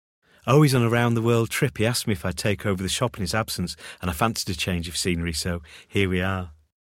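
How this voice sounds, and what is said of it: Manchester accent. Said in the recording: “your accent. That's not a Kent accent, is it? ... No, I'm from Manchester.”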